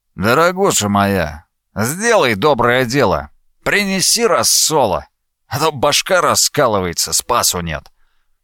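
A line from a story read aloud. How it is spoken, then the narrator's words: Requesting. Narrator (Russian): Риф попросил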